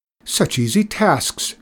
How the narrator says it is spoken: exclaimed Fedor happily

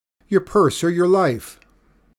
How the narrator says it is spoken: shouting

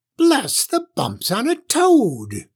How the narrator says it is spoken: shrieked the old witch

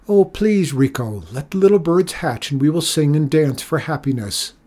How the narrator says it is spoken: the children shouted

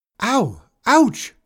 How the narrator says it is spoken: shouted Clara

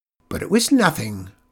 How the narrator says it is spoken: sputtered Griselda

